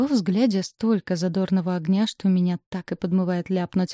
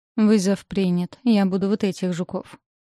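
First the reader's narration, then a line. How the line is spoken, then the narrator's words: Resigned declaration. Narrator (Russian): обречённым тоном заявляю я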